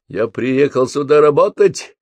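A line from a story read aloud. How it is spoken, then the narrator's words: Bark. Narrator (Russian): рявкнул Михалыч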